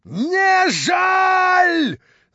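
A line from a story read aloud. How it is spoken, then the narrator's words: Trembling shout. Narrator (Russian): закричал, задрожав и побледнев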